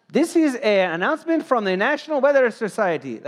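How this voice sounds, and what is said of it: Put-on Indian-sounding announcer accent. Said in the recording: “That's not the right accent, but you know, that's a weird accent. That guy was from India.”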